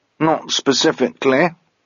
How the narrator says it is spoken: said Mogget cheerfully

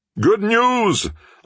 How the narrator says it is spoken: a man shouted over by the Boulevard Saint-Germain

